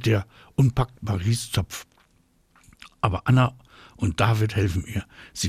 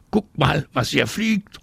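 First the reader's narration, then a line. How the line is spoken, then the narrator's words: Called out. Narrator (German): ruft er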